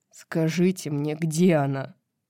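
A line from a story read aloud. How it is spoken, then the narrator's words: Groaning, half-conscious. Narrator (Russian): Баксиан застонал, приходя в сознание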